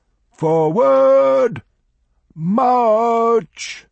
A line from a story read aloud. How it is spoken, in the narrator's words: An officer shouted